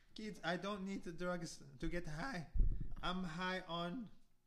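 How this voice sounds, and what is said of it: Put-on Hispanic accent. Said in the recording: “I was trying to do some kind of accent ... Do Hispanic. ... Hispanic accent? ... Sounds just like him, I think.”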